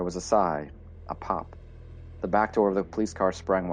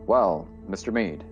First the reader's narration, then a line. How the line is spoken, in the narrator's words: it said